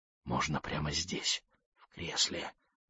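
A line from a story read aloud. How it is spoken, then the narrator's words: Whispering. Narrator (Russian): прошептала она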